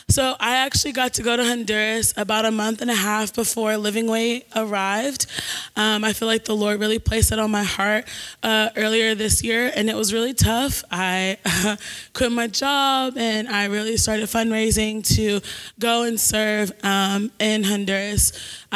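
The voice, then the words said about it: Voice affected by illness. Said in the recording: “I apologize for my voice in advance. Got a little sick on the trip”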